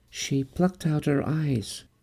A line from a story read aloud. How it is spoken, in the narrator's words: Chloe said, barely a whisper,